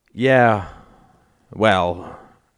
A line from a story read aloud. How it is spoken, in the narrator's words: sighed Al